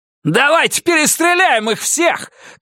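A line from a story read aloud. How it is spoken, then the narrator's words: Shout. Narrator (Russian): крикнул Карсон Стратерс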